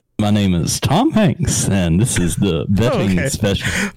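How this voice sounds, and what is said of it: Put-on Southern gentleman accent. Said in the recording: “this is a Southern gentleman like I'm in Lady Killers”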